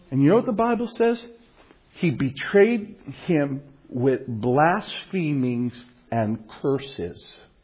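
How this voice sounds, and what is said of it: Brooklyn New York accent. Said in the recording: “from Brooklyn, like me ... I can tell you're from New York because your accent gives you away”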